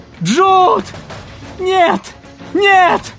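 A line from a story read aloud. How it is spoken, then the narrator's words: Scream. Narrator (Russian): закричала Мэри Бет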